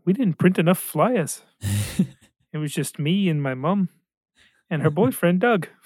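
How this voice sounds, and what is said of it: Imitation of Korg character voice. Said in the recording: “That was my Korg impression. ... That was pretty good. That's pretty good.”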